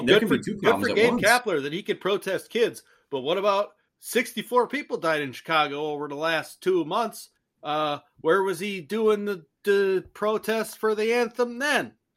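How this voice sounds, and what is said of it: Convincing put-on Chicago accent. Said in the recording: “I don't know why you chose the Chicago accent for it, but you fucking nailed it ... I like that you went to the Bears accent.”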